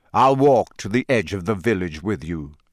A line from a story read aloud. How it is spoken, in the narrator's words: said Sirius